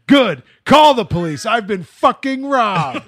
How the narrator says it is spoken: screamed

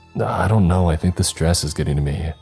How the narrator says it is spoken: I responded flatly, hardly concentrating

